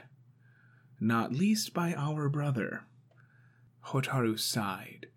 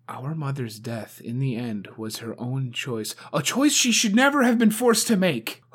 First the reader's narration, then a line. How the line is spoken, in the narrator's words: Hotaru snapped